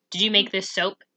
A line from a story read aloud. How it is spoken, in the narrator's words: he asked gruffly